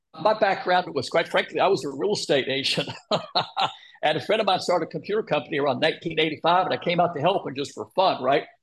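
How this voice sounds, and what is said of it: Heavy Texas accent. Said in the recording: “Are you from Texas or what? ... Just trying to place your accent. ... my accent can get pretty heavy sometimes”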